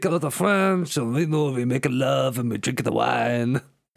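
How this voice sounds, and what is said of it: Put-on French accent. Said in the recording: “So is this accent. ... He sounds like he's from Dijon.”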